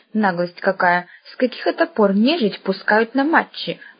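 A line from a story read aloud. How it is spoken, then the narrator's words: Muttered under breath. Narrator (Russian): пробурчала она вполголоса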